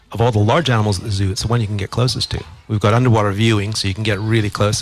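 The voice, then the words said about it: Canadian accent. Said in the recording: “As you can tell by my accent, I'm from Canada originally”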